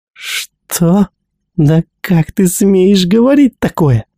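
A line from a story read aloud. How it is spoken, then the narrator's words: Indignant exclamation. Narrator (Russian): воскликнула Гиги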